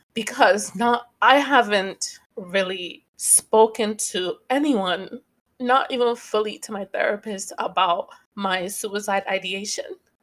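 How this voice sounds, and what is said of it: Choked-up, emotional voice. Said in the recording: “I'm getting choked up a little bit”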